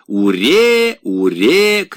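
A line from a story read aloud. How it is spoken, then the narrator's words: Boys shouting. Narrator (Russian): кричали мальчишки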